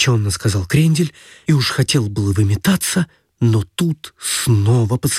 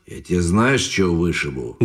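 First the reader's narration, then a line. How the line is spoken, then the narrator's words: Menacing question. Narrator (Russian): грозно спросил Кожаный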